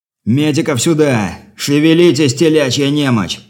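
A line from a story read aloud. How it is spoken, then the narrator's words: Wounded sergeant's roar. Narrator (Russian): взревел раненый сержант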